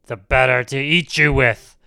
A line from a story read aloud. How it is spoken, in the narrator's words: roared the wolf